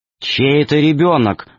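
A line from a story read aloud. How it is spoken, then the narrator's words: Stern question. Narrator (Russian): строго спросил профессор Яката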